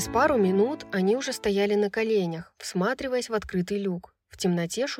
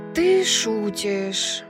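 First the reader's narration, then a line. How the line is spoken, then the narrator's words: Moaning. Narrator (Russian): простонала Брайс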